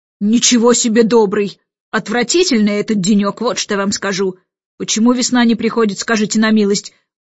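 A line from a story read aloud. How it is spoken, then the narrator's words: Roaring, admiral. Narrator (Russian): взревел адмирал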